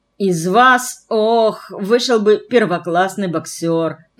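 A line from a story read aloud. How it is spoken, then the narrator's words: Groaning. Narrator (Russian): простонал Мальшит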